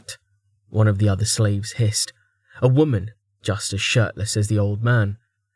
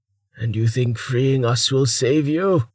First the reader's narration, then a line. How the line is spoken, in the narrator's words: He barked out a laugh